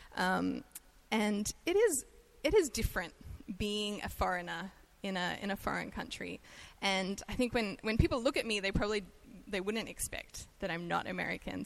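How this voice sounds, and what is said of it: Australian accent. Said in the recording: “I'm Australian, so I have an accent ... when I open my mouth, it's pretty obvious that I'm not from”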